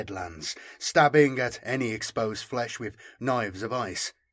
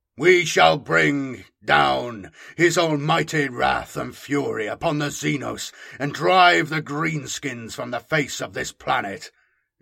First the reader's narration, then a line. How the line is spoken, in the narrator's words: Gerald bellowed